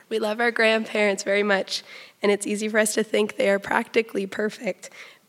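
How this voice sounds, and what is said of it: Hoarse, strained, mostly lost voice. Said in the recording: “As you can tell, I have lost my voice”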